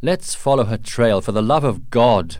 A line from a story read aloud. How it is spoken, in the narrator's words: cried Colonel Munro